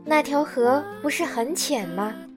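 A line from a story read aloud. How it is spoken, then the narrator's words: Plain. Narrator (Chinese): 小马说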